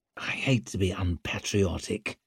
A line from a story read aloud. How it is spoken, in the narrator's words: he murmured as if he could hardly wait